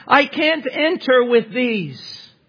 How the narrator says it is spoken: he cried and said

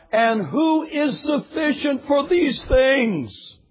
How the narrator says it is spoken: The greatest Christian who ever lived cried out

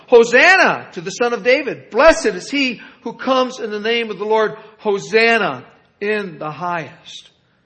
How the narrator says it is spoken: The crowds going ahead of him and those who were following him were shouting

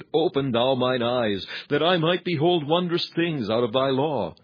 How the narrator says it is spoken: he would not have cried

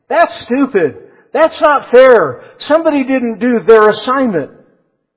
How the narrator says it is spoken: The children exclaimed

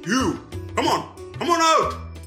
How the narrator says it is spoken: the guards shouted

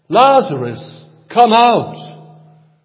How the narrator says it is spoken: called out in a loud voice

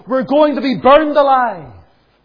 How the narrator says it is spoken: a little girl cried out

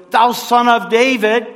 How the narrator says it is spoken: he cried the more, a great deal

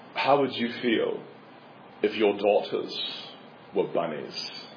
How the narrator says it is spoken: Buckley says, in his British accent

